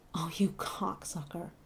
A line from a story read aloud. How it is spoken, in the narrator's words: the old guy until he groaned out